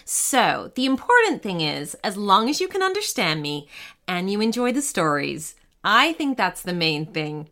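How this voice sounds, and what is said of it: Canadian accent with some British. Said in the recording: “you might hear some Canadian in my accent and a little British in there too”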